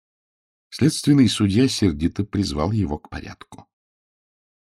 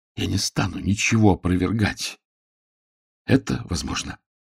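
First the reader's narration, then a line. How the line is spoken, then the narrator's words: Strained hoarse interruption. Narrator (Russian): он с невероятным усилием хрипло заговорил, перебивая мсье Оте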